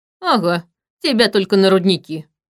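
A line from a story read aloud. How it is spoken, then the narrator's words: Snorted. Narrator (Russian): фыркнул Витал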